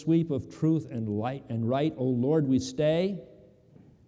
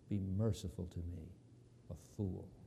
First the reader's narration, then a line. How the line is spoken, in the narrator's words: the king murmured low